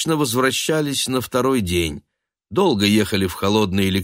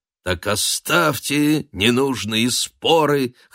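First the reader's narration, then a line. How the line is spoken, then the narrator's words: Hoarse group singing. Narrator (Russian): хрипло пели они, раскачиваясь под стук колес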